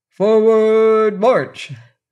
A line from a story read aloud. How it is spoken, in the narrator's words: the generals yelled